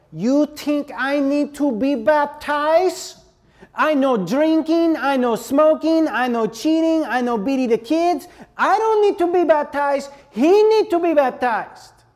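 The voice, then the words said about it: Put-on Hispanic accent. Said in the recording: “I'm going to do my best Hispanic accent uh, imitation.”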